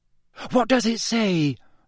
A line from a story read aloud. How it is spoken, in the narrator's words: Hermione asked breathlessly